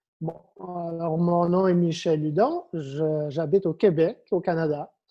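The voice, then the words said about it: Slight Québécois French accent. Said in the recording (French): “un petit accent chez”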